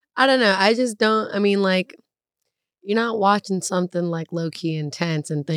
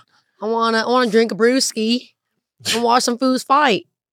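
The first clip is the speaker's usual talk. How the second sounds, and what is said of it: Crazy put-on accent, not good. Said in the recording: “What accent was that? ... I keep doing these crazy accents and they're not good.”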